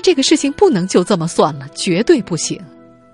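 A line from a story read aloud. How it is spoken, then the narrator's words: Sad and angry. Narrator (Chinese): 朱玉珍又伤心又愤怒，他说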